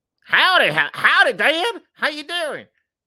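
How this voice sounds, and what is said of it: Put-on thick Texan accent. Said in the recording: “he's from Texas? The director's from Texas? ... did he have a thick accent?”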